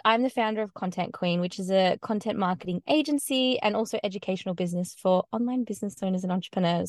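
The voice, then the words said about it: Australian accent. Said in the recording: “as you can probably tell, I have a bit of a different accent. I'm from Australia”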